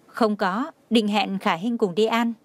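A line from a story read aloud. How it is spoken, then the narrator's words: Smiling speech. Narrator (Vietnamese): mỉm cười nói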